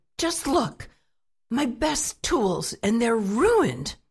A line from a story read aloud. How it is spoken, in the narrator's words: he shouted